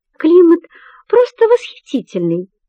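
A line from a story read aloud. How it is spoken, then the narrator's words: Cheerful reply, hidden anger. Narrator (Russian): бодро отвечает Селения, хотя в душе ее кипит гнев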